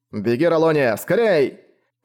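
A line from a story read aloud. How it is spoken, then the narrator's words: Shouting. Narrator (Russian): кричал Адлет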